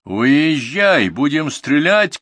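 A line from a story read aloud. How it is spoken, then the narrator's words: Shouted. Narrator (Russian): крикнул Николай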